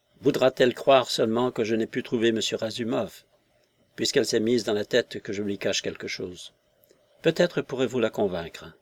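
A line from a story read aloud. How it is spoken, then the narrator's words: Half-voiced, talking to herself. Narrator (French): Elle dit à mi-voix, comme se parlant à elle-même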